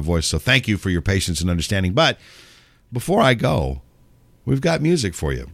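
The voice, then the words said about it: Strained, failing voice. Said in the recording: “My voice is about to crap out on me again”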